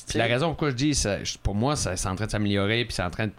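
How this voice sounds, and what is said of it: Soft Acadian French accent. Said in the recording (French): “mon accent acadien ... Là, je parle comme je parle ... t'as un petit accent doux ... non, je suis acadien”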